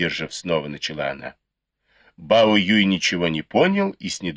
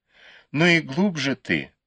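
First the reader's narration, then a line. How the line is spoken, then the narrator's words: Reproachful sigh. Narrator (Russian): вздохнула и укоризненно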